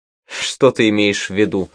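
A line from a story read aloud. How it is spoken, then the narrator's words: Laughing. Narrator (Russian): рассмеялась она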